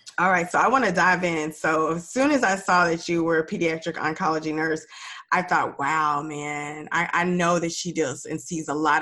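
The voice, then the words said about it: Raspy, nasal voice. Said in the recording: “You guys can hear I'm a little raspy, a little nasally. I'm getting over a cold”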